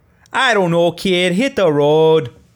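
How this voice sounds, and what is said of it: Put-on Chicago accent. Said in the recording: “That was my best attempt at a Chicago accent.”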